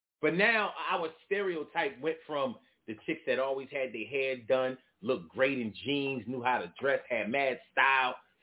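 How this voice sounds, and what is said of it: Philadelphia accent. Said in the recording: “they got our accent ... When you're from Philly, you know how people from Philly sound”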